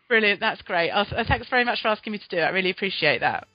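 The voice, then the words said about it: Musical British accent. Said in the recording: “an English woman from South London ... your delightful musical British accent. I could listen to that all day.”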